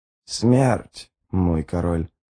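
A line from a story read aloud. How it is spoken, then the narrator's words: Hoarse croak. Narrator (Russian): прохрипела мать Гандринг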